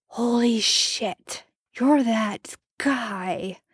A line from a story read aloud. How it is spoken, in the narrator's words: Marco slurred